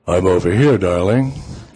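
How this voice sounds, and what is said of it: Very deep, seductive bedroom voice. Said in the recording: “in my deepest bedroom voice,”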